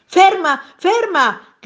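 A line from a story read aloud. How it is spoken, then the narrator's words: Gentleman's shout. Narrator (Italian): gridò il signore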